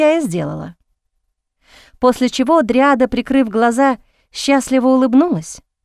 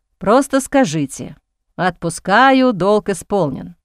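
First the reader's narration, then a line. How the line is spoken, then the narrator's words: Resigned sigh. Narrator (Russian): Дерек обреченно вздохнул и проговорил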